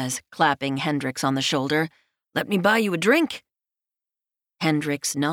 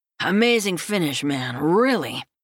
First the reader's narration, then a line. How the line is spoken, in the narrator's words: Stephen slurs as he grins